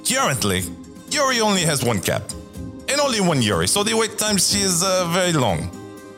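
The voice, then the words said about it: Strange, vaguely European put-on accent. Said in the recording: “Can you tell them in a strange, somewhat European accent?”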